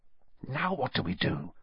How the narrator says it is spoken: Harry whispered

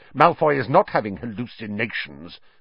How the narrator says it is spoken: snarled Snape

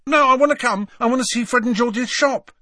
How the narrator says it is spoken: said Ron hastily

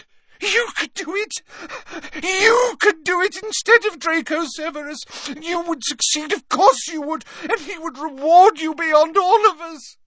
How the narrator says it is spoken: her tears falling onto his chest, she gasped

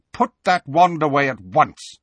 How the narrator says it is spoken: he said curtly

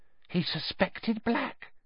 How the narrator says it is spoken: gasped Madame Rosmerta

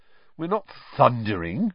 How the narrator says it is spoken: said Ron irritably

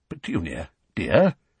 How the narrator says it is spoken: said Uncle Vernon timidly

